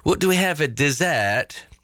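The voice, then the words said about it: Mock British accent. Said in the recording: “A little bit of a British accent.”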